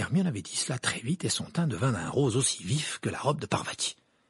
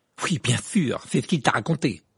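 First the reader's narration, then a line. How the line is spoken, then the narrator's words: Nasty tone. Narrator (French): dit Ron d'un ton mauvais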